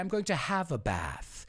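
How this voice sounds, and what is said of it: Put-on British accent. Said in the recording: “I'm going to say it American and British with my British accent.”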